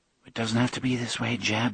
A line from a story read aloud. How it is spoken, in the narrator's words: Audrey murmured